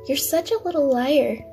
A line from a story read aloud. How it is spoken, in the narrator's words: You laughed as he pulled him from the window and said